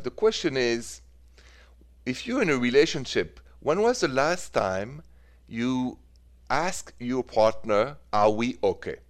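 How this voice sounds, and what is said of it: French accent. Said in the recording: “The accent is French”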